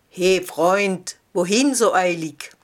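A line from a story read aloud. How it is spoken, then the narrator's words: Rough voice calling. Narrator (German): rief eine raue Stimme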